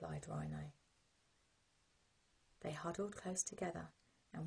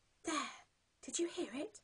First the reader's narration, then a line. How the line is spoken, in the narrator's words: gasped Penguin